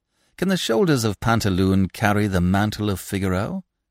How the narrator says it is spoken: You laugh

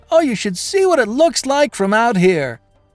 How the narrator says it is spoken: And I shouted

